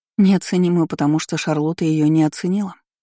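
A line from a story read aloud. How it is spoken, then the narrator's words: Sad joking. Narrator (Russian): грустно пошутила Кейр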